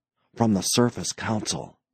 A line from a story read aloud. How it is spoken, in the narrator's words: Franks whispered tensely